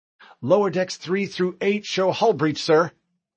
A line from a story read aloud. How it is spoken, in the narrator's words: Hall called out